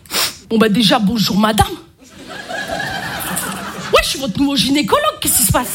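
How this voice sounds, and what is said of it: Marseille French accent. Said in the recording (French): “je m'y connais en accent, hein. Je suis marseillaise ... l'accent marseillais”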